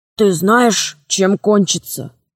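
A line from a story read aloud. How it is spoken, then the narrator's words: Whispered question. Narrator (Russian): спросил шепотом Грубин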